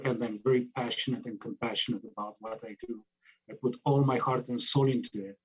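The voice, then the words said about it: Noticeable foreign accent. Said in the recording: “I love your accent, and it's beautiful.”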